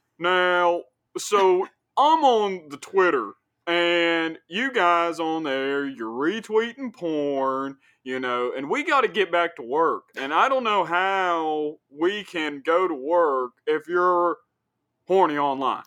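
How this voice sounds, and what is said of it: Imitates another person's voice. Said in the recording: “That is a spot on impression of Jim Justice... That's pretty good... That is a pretty good impression of West Virginia Governor Jim Justice”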